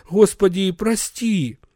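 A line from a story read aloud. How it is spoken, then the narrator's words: Muttered. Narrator (Russian): бормотал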